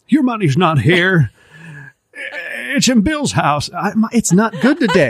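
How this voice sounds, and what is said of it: Imitates another person's voice, poorly. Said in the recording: “my horrible Jimmy Stewart impression”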